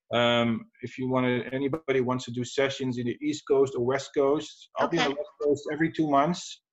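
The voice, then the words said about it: European accent. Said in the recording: “I love your accent. I love European accents. They're just so much better than American accents. So much richer, I think.”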